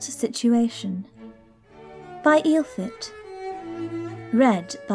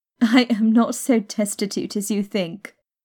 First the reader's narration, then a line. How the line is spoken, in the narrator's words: Arabella laughed